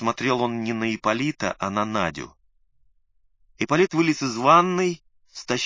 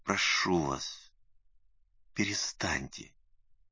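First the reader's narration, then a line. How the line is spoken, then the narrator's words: Quiet request. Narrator (Russian): тихо попросил Лукашин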